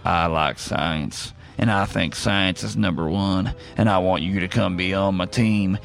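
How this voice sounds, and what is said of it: Imitates another person's voice. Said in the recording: “how well you did that impression? ... this one was pretty on point”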